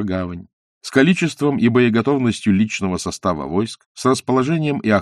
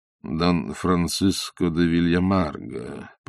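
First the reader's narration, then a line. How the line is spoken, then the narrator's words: Stalling drawl. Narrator (Russian): протянул он, выгадывая время, чтобы подумать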